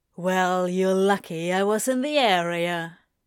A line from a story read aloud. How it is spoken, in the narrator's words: he drawls, suppressing a smirk to hide his every intention to poke fun at Aziraphale